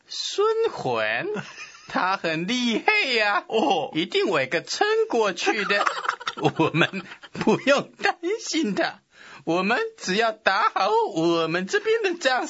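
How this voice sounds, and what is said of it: Put-on Suzhou accent. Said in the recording (Chinese): “这大都督什么口音啊？ ... 苏州人， ... 外国苏州人。”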